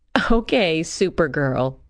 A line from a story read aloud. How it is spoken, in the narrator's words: I'd said, laughing